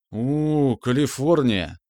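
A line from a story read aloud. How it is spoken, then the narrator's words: Train-like hooting reply. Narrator (Russian): по паровозному прогудел в ответ Шурка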